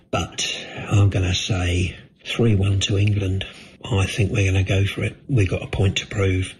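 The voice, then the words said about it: Deflated, downbeat voice. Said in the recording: “as you can tell in my voice, I'm a little bit, well, I just feel like the rest of the country, a bit deflated”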